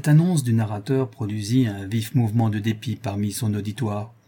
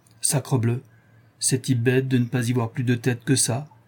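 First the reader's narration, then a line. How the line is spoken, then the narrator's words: Regional man exclaiming. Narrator (French): s'écria le malouin Bastien Marceau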